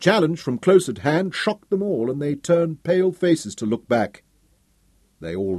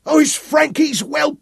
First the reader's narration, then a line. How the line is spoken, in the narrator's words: one cried